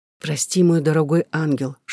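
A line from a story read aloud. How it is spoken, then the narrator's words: Whisper. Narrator (Russian): шептал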